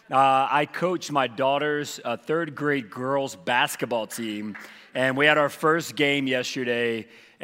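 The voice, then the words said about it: Strained, hoarse voice. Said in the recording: “losing my voice. ... I just yelled at third grade girls like the whole time. So I'm completely losing my voice.”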